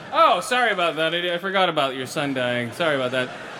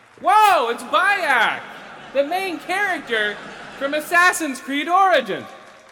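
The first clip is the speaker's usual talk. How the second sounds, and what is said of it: Yelling with forced enthusiasm. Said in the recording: “Why are you yelling? ... Because I'm trying to build up false enthusiasm.”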